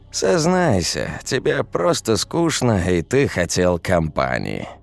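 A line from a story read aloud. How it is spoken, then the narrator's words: Sighing. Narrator (Russian): вздохнул Денис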